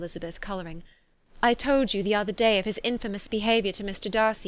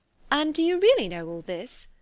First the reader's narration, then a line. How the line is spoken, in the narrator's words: cried Mrs